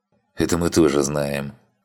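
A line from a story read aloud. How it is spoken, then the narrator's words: Gruff mutter. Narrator (Russian): буркнул Лебович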